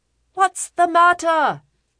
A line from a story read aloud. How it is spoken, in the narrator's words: shouted my master